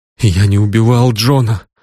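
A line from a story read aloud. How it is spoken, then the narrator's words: Moaning. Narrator (Russian): он застонал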